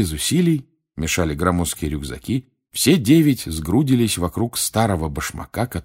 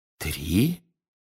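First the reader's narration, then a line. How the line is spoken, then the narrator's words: Whisper. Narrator (Russian): шепнул мистер Уизли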